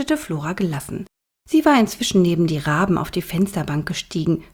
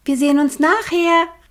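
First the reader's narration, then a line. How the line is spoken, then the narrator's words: Calling out. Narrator (German): rief sie den beiden Vögeln zu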